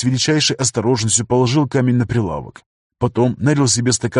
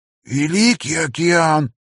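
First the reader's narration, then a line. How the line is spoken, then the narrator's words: Wheezing. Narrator (Russian): просипел он наконец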